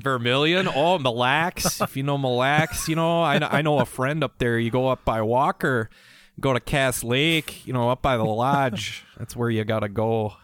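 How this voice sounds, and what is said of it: Put-on friendly regional accent. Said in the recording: “Something about that accent... It's a friendly accent.”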